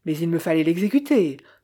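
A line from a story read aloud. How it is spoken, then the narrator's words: Aviator protesting sharply. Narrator (French): protesta vivement l'aviateur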